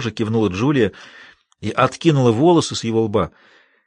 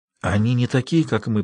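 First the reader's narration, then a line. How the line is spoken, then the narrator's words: Old man whispering. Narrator (Russian): прошептал старик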